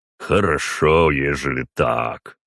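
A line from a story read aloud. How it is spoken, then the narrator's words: Deep bass voice. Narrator (Russian): пробасил Ророгов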